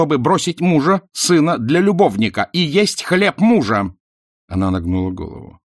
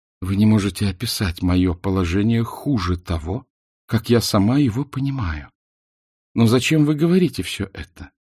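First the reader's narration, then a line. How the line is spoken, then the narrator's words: Quiet. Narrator (Russian): сказала тихо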